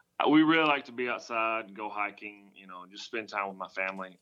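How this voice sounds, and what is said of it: Rural American country accent. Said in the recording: “I'm from the country, if you can't tell from my accent”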